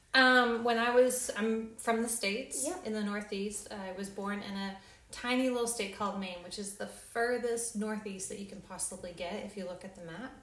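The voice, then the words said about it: Slight American accent. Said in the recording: “people hear a bit of an accent”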